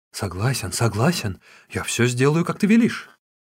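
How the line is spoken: Hurried frightened mutter. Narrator (Russian): Цзян Мэньшэнь, который думал лишь о том, как бы спасти свою шкуру, торопливо пробормотал

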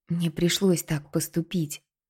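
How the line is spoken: Whispered, persuading herself. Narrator (Russian): прошептала Кинта, уговаривая себя

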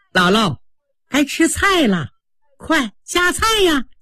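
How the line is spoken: Straight-faced urging. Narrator (Chinese): 凤姐和鸳鸯两个人绷着脸不笑，还上前让刘姥姥

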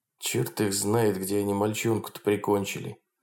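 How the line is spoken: Quiet muttering. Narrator (Russian): тихо бормотал Хромов

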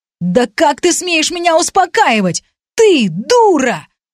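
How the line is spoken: Screaming. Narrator (Russian): вопил брат

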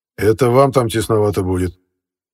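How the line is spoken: Smirking grunt. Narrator (Russian): хмыкнул Непенин

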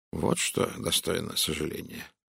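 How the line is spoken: Mutter. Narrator (Russian): пробормотал Пуаро

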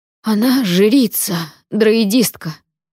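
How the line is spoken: Breathless exclamation. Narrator (Russian): выдохнул сэр Отмар

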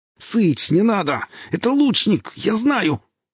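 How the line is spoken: Shouting through clenched teeth. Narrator (Russian): успел прокричать подельнику Фикса сквозь стиснутые от боли зубы

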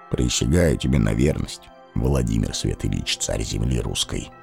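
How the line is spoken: Quiet, barely audible. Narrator (Russian): Тихо сказал он, произнесенные едва слышно

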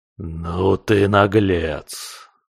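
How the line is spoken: Mocking creature hiss. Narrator (Russian): насмешливые нотки в шипении твари

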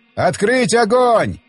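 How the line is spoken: Yelling from behind. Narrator (Russian): орал откуда-то сзади Оттон Лид

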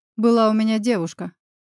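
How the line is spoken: Wry snort. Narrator (Russian): хмыкнув, начал друг

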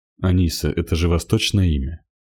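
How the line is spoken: Plain question. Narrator (Russian): спросил Игорь

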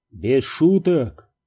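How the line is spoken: Plain. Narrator (Russian): спросил Перри

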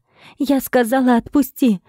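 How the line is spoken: Startled shriek. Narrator (Russian): Взвизгнула я, почувствовав, как одна его огромная ручища сжала мой бок

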